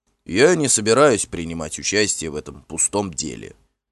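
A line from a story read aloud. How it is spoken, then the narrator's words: Angry. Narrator (Russian): сказал он сердито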